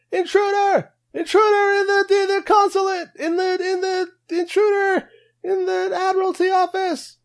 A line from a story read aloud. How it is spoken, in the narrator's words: shouts